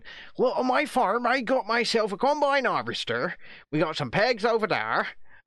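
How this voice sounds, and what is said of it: Put-on West Country accent. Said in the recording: “I hope he adopts a West Country accent and he starts going”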